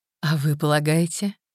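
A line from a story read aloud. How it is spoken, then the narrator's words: Soft smiling question. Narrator (Russian): мягко улыбаясь, спросила женщина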